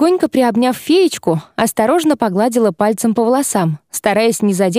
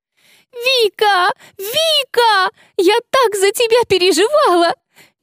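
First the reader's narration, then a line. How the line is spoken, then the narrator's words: Bursting into sobs. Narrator (Russian): Эйва разрыдалась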